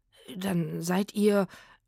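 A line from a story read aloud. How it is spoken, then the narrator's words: Stammering, turning angry. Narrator (German): stammelte er und wurde plötzlich wütend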